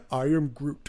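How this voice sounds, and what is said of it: Vin Diesel impression voicing Groot. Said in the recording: “best Vin Diesel impression ... I was doing Vin Diesel doing Groot.”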